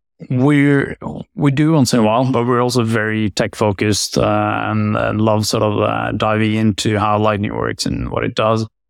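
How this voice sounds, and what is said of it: Norwegian accent. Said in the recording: “from your accent,... it must be Norway.”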